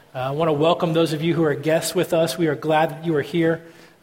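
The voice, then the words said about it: Strained, failing voice. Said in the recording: “my voice is quickly leaving me”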